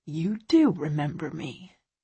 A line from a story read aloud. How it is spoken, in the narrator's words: he says, his tone soft